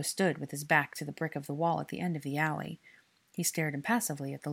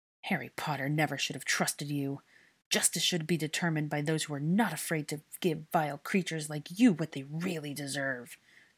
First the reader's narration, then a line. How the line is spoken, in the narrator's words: the man snarled